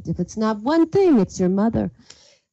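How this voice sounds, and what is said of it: Put-on Yiddish accent. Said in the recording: “Ideally even said in sort of a Yiddish accent”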